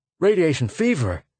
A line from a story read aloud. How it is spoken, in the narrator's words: cried the lieutenant